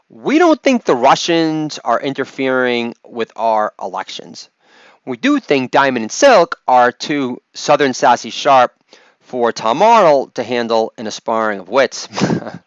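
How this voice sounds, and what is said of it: Imitates another person's voice. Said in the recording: “impersonation”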